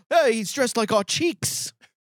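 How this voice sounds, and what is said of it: Poor attempt at Irish accent. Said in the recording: “Which is a terrible impression. ... Dublin, Ireland. ... His lips can't even get into Irish.”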